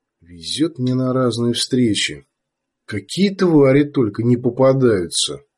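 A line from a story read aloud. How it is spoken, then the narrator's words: Gloomy forced cheer. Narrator (Russian): хотел, чтобы эти мысли звучали бесшабашно и весело, но получалось как-то уныло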